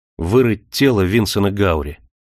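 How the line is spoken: Blunt and rough. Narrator (Russian): сказал прямо и грубо

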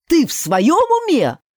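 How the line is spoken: Reproachful exclamation, grandmother. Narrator (Russian): воскликнула бабуля, глядя на меня осуждающе

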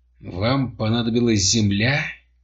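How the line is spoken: Whisper through still lips. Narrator (Russian): шептал он неподвижными губами

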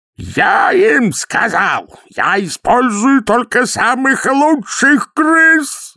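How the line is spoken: Shouting. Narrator (Russian): закричал Дурин

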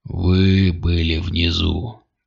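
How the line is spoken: Growled. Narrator (Russian): прорычал главарь

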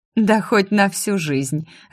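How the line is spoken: Fairy laughing. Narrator (Russian): рассмеялась фея

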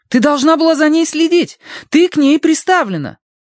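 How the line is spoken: Shrill animal-like whining. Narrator (Russian): Мэйзри начала подвывать, визгливо, как лесная зверушка

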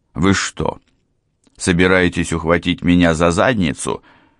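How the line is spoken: Barked. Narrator (Russian): рявкнул

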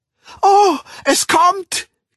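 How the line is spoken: Shriek. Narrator (German): kreischte Clara Dieterding

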